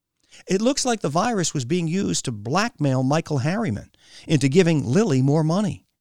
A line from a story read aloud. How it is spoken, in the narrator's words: she blurted to his back